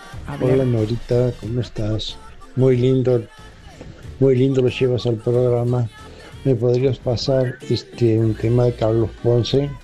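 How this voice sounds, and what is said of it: Regional Argentine sing-song accent. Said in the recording (Spanish): “Me encanta esa tonada”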